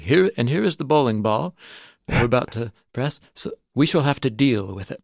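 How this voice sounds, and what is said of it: Put-on Eastern European accent. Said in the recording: “Well, no, it's an Eastern European accent.”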